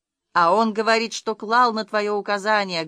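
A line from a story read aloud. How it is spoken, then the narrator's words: Rough monstrous shout. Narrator (Russian): грубо кричал людоед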